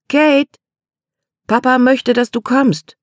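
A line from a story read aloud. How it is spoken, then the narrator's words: Calling again. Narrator (German): rief noch einmal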